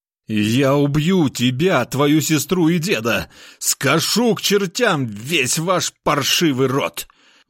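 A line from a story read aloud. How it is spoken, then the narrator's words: Roar. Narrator (Russian): взревел он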